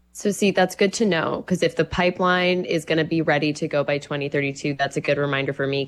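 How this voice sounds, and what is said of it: Congested, stuffy voice. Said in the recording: “I have a cold, so my brain is full of mucus”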